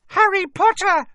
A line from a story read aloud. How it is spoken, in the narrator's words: she squealed